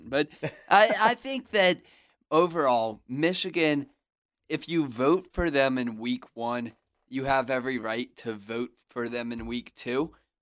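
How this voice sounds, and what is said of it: Sick, higher-pitched voice. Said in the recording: “trying to fight this sickness off ... you hear me? My voice is a little bit higher pitched”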